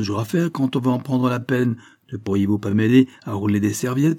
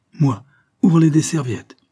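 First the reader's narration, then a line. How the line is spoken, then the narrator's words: Exclaimed. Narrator (French): s'écrie Isabelle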